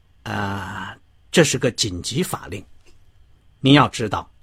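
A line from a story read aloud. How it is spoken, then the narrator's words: Low, hushed voice. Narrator (Chinese): 罗森泰尔压低声音说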